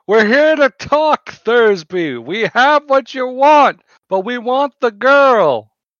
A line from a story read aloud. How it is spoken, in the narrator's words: yell out